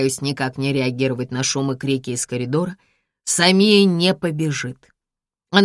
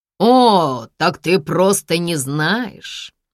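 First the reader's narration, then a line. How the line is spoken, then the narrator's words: Mocking. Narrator (Russian): Насмешливо бросаю я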